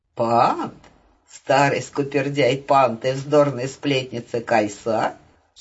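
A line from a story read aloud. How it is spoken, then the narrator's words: Giggled. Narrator (Russian): хихикнула Вахуна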